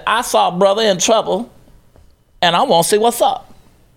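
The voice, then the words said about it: Imitates another person's voice. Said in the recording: “That was my Maxine impression... nailed it”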